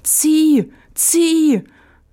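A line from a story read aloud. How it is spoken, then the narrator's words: Calling out. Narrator (German): rief der Fuchs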